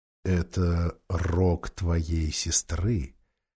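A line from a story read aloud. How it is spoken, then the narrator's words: Quiet. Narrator (Russian): сказал Аслан Питеру тихо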